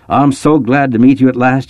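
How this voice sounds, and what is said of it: Strong Mississippi accent. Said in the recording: “It carried a strong Mississippi accent”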